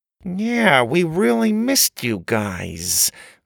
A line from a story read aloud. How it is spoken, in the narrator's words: Grandma said through gritted teeth